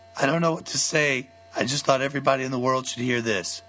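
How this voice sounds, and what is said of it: Weakened, strained voice. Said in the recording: “I'm recovering from a recent sinus infection during which I lost my voice at some point ... this is not fake. This is what I really sound like.”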